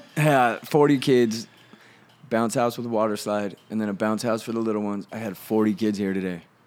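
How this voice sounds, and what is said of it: Tired, worn-out voice. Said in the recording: “I'm so tired. ... Can you hear it in my voice, dude?”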